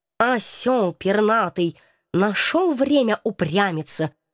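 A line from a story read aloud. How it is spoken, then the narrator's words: Muttered under breath. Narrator (Russian): буркнул себе под нос кот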